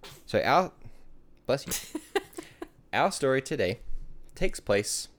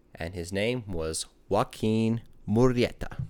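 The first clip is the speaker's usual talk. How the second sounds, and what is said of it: Put-on Spanish accent on a name. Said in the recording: “That was a horrible Spanish accent. ... That was actually pretty good.”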